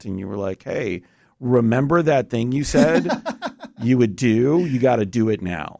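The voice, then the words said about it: Good impersonation of co-host. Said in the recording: “you do such a good impersonation of me”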